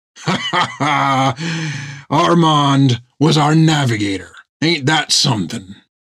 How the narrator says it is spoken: Several more bolts of laughter sparked out of him

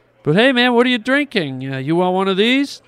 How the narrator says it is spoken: Tommy taunted Brett

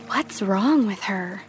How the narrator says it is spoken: them whispering

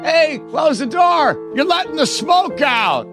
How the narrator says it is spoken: Uncle Frank would laugh

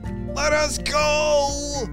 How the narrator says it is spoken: yelled Enzo

